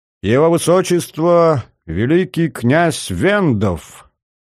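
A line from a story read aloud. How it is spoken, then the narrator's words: Loud solemn announcement. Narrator (Russian): кто-то громко, удивительно торжественным голосом произнес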